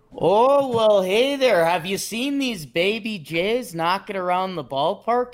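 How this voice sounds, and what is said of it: Put-on Canadian accent. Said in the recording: “in your best Canadian accent”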